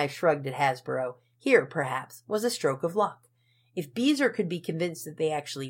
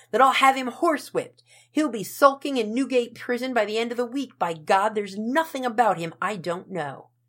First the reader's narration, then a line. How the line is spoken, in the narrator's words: shrieked a muffled voice